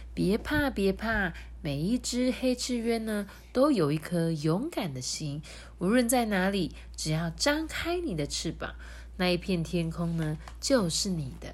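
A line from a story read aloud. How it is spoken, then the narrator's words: Gentle mother's voice. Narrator (Chinese): 黑翅鸢妈妈也温柔的说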